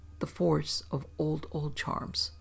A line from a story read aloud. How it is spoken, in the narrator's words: he said, quietly triumphant